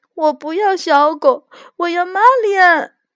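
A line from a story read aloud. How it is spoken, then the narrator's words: Crying. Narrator (Chinese): 罗拉哭着说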